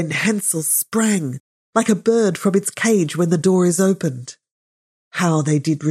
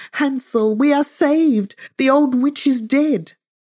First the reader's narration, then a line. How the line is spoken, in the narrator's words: Gretel cried